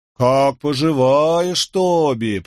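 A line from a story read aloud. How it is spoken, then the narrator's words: Drawling imitation of brother. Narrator (Russian): протянул второй, подражая брату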